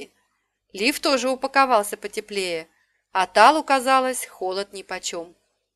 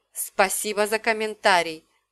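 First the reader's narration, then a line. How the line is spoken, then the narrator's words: Hissed. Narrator (Russian): прошипел Лив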